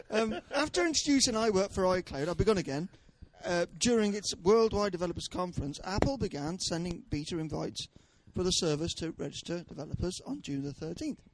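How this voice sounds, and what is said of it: Southwest English local radio presenter voice. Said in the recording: “I'm going into my Radio 4 voice now ... it's not very Radio 4 ... local radio. I've gone into my Southwest local radio voice. ... Radio Cider.”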